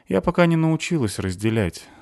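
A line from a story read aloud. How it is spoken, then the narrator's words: Sigh. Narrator (Russian): вздохнула Настя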